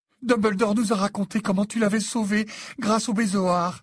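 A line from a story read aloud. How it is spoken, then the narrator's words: Sobbed. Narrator (French): sanglota-t-elle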